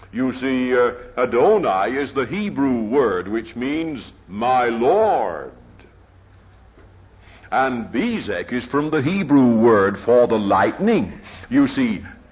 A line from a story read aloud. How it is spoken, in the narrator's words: he says